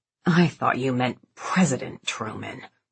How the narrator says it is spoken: he'd hissed

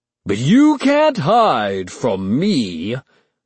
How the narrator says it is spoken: Chet bellowed

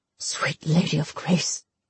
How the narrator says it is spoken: he whispered

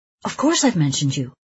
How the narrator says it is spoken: he says quickly

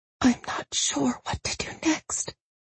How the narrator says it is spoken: she whispered

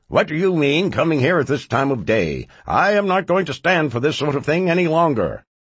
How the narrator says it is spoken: Scrooge, who exclaims

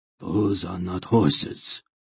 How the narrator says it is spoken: Hetar said grimly

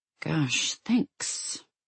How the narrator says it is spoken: Alia muttered

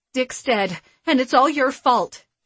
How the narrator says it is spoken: Shannon Donnelly cried out, her hands shaking with rage or some other intense emotion

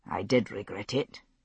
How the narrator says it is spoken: he said very quietly

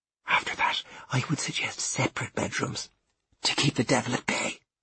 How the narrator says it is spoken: whispered in my ear

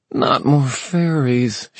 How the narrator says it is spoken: she groaned

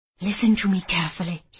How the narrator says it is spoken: he whispered, his mouth too close to my face

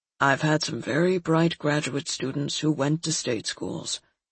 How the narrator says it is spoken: my father replied calmly

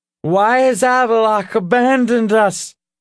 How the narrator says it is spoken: the boar called out, his words slurred

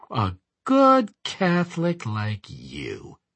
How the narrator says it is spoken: I sneered softly

